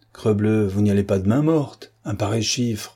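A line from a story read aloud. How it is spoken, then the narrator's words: Calm reply. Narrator (French): Géradec répondit calmement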